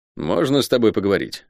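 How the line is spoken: Dry request. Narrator (Russian): сухо попросил Шен

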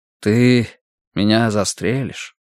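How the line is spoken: Gentle. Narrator (Russian): ласково спросил Даниэль

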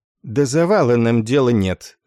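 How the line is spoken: Cold. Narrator (Russian): холодно сообщил подполковник Корн

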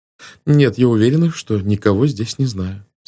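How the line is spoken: Plain, after a pause. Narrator (Russian): сказала она наконец

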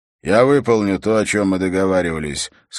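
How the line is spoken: Dry. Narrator (Russian): сказал он сухо

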